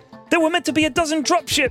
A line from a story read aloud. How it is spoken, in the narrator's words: screamed Cadet Jellyface